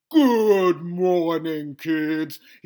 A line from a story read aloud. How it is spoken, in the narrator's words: he said in his booming ex-army sergeant voice